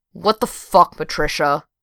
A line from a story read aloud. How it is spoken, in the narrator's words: growled into the phone